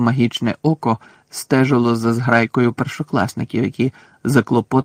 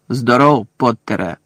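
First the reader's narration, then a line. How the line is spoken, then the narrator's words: Growling. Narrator (Ukrainian): прогарчав професор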